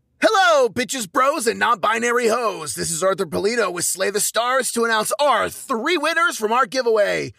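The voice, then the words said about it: Announcer voice. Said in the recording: “I'm using my announcer voice.”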